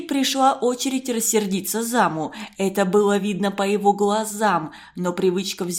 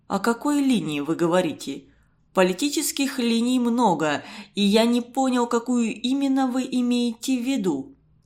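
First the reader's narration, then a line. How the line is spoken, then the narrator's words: Calm, suppressed indignation. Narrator (Russian): Константин Семенович с трудом сдерживаясь от возмущения, спокойно спросил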